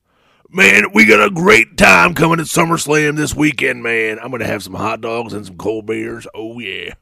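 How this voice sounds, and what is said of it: Imitates another person's voice. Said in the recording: “my Doc Hendricks impersonation”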